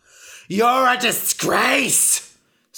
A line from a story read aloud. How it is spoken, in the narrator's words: screamed Ra